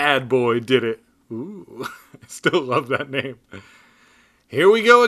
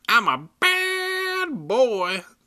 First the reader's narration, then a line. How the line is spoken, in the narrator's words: the dummy said in a shrill baby voice